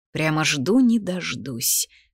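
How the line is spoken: Grumbled in thought. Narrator (Russian): проворчала мысленно

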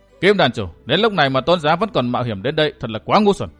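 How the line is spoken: Cold. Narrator (Vietnamese): Phí Thiên Cửu lạnh lùng nói

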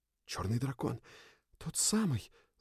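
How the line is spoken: Group whispering. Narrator (Russian): зашептались сильфы

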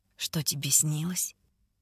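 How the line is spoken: Muffled mumble. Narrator (Russian): Бормочет Ренсом, уткнувшись носом в ложбинку между моей шеей и плечом

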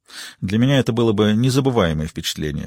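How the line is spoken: Dry reply. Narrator (Russian): сухо ответила Риццоли

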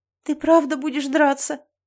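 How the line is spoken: Tearful sob. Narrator (Russian): Я всхлипнула и подняла на него заплаканные глаза

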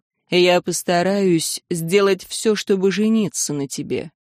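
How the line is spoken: Serious. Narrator (Russian): Аарон серьезно сказал

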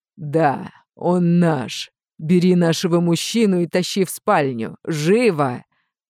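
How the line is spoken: Languid purr. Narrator (Russian): Томно промурлыкала Злата

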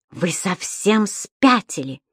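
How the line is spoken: Exclamation. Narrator (Russian): воскликнула госпожа Брюкман

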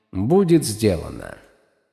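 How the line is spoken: Plain. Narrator (Russian): ответил Спрэн Пустоты

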